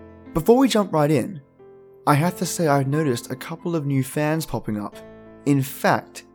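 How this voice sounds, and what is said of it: Usual voice. Nothing is said of it.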